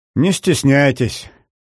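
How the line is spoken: Gloomy. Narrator (Russian): мрачно произнесла Кайзерин

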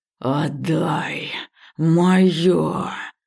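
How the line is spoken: Hiss. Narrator (Russian): прошипел он

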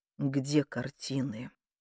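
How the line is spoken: Quiet. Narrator (Russian): тихо проговорил он

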